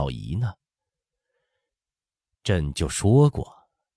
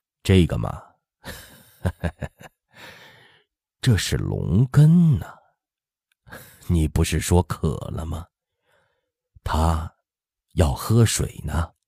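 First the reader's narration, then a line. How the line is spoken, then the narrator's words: Laughing, teasing. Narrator (Chinese): 乾隆……笑道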